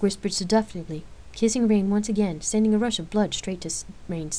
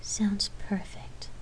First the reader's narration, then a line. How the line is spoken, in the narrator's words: Lark answered softly, smiling